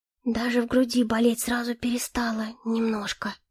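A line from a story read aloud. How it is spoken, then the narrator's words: Whispered. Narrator (Russian): шепнул Билкарт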